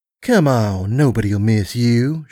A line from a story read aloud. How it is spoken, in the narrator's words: she purred